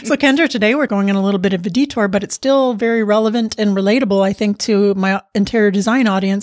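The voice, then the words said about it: Slightly raspy voice. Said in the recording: “I'm a little raspy today. I have some allergies going on.”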